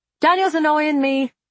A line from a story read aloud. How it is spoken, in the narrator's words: I shouted back